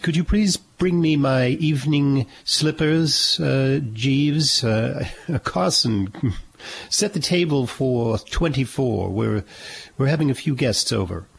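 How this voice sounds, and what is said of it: Put-on British accent. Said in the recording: “I'm sort of speaking with a British accent.”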